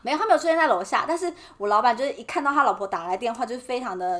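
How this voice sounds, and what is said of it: Usual voice. Nothing is said of it.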